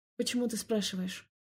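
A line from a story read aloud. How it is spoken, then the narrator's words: Muttered. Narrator (Russian): Пробормотала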